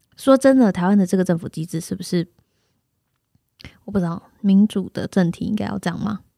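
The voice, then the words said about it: Suddenly speaking very quietly. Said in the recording (Chinese): “我这段突然讲很小声”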